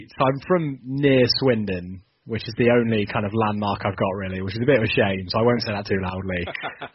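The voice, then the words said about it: Southern English accent. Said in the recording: “you might pick up from the accent, I'm not originally from Sheffield or the North. I am a Southerner”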